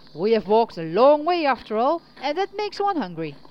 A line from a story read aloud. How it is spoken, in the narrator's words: Brave Hunter clacked his tongue and said cheerfully